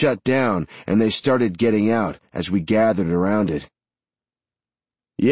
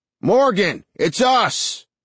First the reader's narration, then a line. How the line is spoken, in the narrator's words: a voice called out